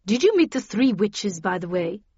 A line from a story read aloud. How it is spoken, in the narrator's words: she asked